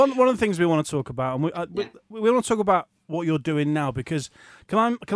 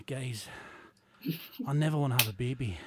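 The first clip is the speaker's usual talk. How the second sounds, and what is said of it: Imitates another person's voice. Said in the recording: “do my best Barry impression.”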